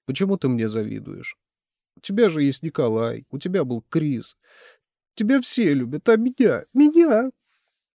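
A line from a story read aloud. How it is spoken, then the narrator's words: Sobbing. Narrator (Russian): рыдания вырвались из своей темницы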